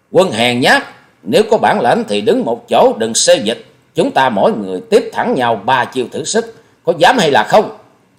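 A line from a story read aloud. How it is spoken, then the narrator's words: Fierce roar. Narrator (Vietnamese): Hòa Sĩ Kiệt gầm như cọp rắn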